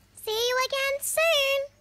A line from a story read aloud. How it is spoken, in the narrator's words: Kip called out in his little squeaky voice